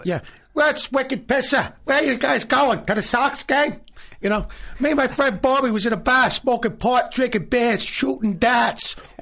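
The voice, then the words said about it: Good put-on Southie Boston accent. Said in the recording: “That's a good Boston. That's a good Southie accent.”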